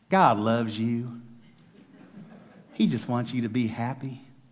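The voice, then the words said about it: Put-on Texas accent. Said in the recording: “I could say it in a Texas accent, right? ... He's got a better Texas accent than I do. ... That's my best I got.”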